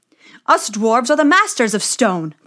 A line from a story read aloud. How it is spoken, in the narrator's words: they cried